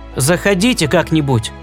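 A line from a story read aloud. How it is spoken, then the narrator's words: Very casual tone. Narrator (Russian): добавил он самым небрежным тоном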